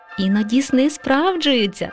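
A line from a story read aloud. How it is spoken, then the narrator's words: Laughing mother. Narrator (Ukrainian): засміялася мама мишка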